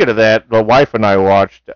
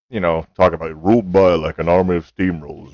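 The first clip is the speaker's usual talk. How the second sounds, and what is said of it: James Earl Jones impression. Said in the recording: “the speech that James Earl Jones, who plays Terrence Mann ... A good impression.”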